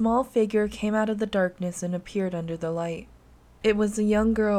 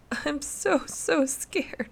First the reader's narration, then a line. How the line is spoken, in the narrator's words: she said between sobs